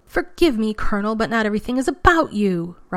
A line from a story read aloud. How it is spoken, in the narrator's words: Rodney had yelled back